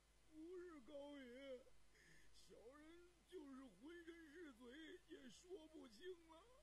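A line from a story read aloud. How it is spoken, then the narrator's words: Tearful complaining. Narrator (Chinese): 那朝奉浑身稀烂，头脸乌青，也在一边加七加八的哭诉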